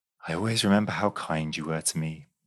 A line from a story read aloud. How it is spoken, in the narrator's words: she said softly